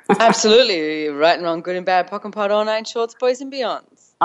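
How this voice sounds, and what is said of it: Australian accent. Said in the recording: “I love the Australian accent”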